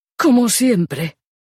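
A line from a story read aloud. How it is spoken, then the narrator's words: Desperate exclamation. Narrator (Spanish): exclamó Kate con desesperación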